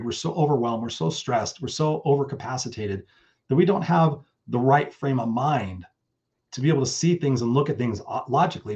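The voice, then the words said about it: Tired, worn-out voice. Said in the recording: “I've been burned out and tired many, many times in my life. ... You can hear it in my voice. I've been talking all day.”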